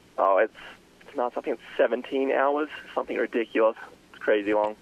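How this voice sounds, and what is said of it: Australian accent. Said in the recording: “an accent of sorts ... I have the Australian accent.”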